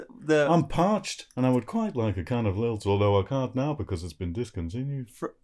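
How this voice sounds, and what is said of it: Impression of Caroline Quentin. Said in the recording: “It's Caroline Quentin... It's me, Caroline Quentin, from Men Behaving Badly”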